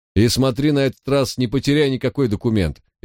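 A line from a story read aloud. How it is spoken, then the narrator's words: Cheerful. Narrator (Russian): весело сказал он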